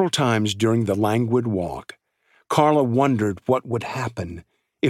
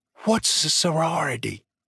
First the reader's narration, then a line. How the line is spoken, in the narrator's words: Kira whispered to her